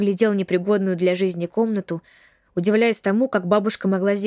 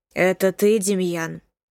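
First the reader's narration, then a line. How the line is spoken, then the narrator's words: Hoarse croak, witch. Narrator (Russian): прохрипела ведьма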